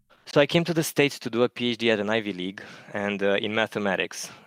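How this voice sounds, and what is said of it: Eastern European accent. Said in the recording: “if you can tell from my accent, I'm from Eastern Europe.”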